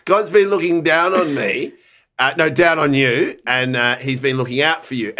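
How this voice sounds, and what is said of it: Put-on accent. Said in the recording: “every time I want to go into the accent”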